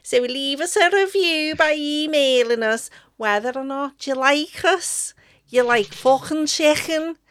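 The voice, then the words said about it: Put-on Liverpudlian Scouse accent. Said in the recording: “what accent am I doing now? It's the Liverpudlian thing, isn't it? ... You've gone back to ... Scouse.”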